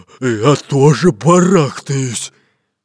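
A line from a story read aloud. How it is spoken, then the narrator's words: Displeased deep bass. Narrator (Russian): недовольно пробасил Буль-Буль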